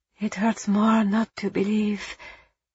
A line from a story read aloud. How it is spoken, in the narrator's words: Eva whispered back